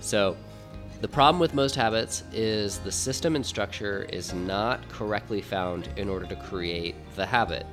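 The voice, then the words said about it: Voice sounds like a cold. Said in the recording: “excuse me for the way my voice sounds right now. It's going to sound much different on other episodes. I have a little bit of a cold”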